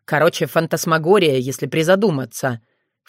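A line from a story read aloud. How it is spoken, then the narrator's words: Snorting. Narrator (Russian): фыркнул лис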